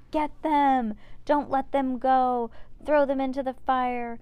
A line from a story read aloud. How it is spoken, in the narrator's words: The frenzied crowd shouted